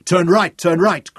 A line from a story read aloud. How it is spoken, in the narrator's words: Craig shouted